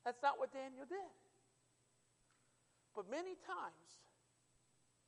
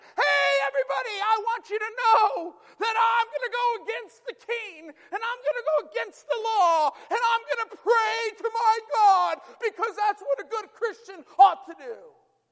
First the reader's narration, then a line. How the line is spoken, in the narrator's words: shouted